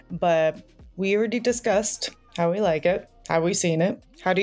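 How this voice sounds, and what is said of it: Usual voice. Nothing is said of it.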